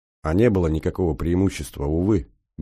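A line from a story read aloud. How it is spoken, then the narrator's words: Sad. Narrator (Russian): грустно сказал Солдатов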